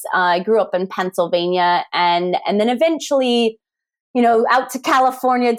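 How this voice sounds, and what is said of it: American accent. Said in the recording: “despite my best attempts at refining my Welsh accent, I haven't quite got it right ... the accent comes originally from the United States”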